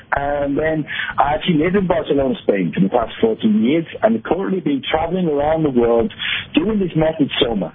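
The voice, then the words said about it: Liverpool accent, north of England. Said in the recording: “I come from Liverpool in the north of England, hence the slightly strange accent.”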